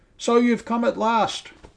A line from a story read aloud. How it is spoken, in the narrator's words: cried Sir Jasper